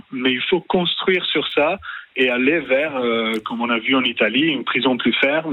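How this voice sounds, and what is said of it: French with a charming Italian accent. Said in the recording (French): “votre accent, votre charmant accent, nous fait dire que vous êtes d'origine italienne”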